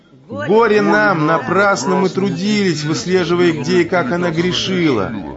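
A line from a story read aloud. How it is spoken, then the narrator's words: Loud wailing evil spirits. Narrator (Russian): Духи злобы вдруг громко воскрикнув, завопили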